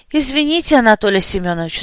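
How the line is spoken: Sigh suppressing joy. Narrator (Russian): вздохнул, старательно давя радостные эмоции

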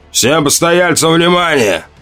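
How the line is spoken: Thunderous barking shout. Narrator (Russian): рявкнул он громовым, перекрывающим шум голосом

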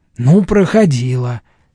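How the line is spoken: Angry. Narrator (Russian): сердито сказала Эмма

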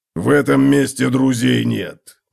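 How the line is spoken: Grunted. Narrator (Russian): буркнул Готрек

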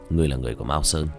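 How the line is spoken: Cold. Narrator (Vietnamese): Diệp Thiếu Dương lạnh lùng nói

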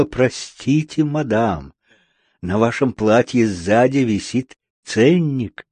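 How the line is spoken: Woman stranger whispering. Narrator (Russian): незнакомая женщина и шепнула

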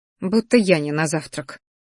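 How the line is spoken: Inner grumble. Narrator (Russian): буркнула мысленно

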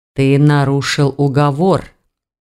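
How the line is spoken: Grim interrupting man. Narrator (Russian): мрачно прервал его мужчина

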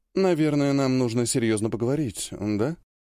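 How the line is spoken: Sighing. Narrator (Russian): вздохнула апостол

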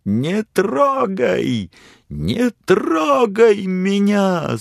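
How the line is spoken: Frantic scream while struggling. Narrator (Russian): судорожно завопила она, вырываясь из его рук

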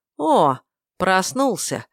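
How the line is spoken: Joyful drawl. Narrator (Russian): радостно протянул незваный гость

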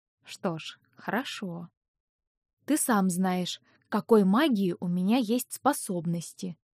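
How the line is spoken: Quiet. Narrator (Russian): тихо сказала я

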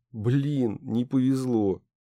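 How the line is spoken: Younger brother sighing. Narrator (Russian): Мой младший брат вздохнул

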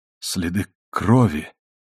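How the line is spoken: Blank mutter. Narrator (Russian): бессмысленно пробормотал он

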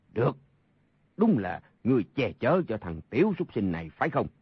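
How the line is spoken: Angry speech. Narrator (Vietnamese): Sa Thông Thiền tức giận nói

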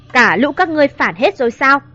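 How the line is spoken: Loud shout. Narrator (Vietnamese): Mà Nghiêm quát lớn

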